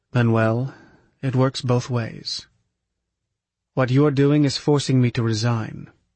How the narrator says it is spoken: said softly

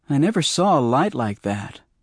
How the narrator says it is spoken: I said

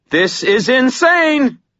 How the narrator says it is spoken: Murphy yelled

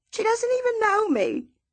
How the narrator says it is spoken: Miss Celia cries

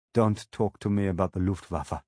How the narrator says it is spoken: I said sadly

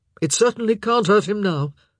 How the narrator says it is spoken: Benedict said gruffly

